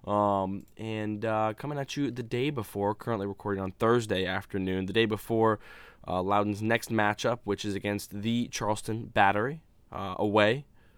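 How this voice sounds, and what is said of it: Voice slightly off, cold-affected. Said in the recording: “nursing a bit of a cold, so I'm sorry if my voice sounds a little bit off”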